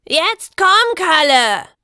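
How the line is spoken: Shouting. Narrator (German): schrie die Meisterin

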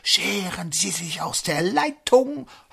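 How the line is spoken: Ghostly breathy whisper. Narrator (German): Das Gespenst haucht in den Draht

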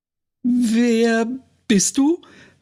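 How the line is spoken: Asked too loudly. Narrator (German): fragte zu laut

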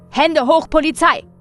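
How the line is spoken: Shouting. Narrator (German): schrie jemand

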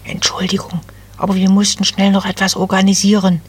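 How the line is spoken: Elf whispering. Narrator (German): flüsterte eine der Wipfelelfen

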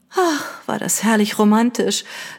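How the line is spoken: Sigh. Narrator (German): seufzte Lady Catherine

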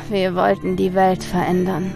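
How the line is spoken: Man sighing. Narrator (German): seufzte der Mann

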